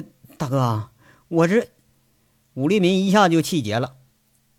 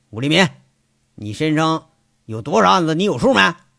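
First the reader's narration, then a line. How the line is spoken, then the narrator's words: Deep-voiced shout. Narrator (Chinese): 杨伟啊沉声喊了一句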